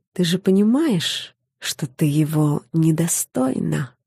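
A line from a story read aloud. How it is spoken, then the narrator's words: Quiet. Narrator (Russian): тихо сказала она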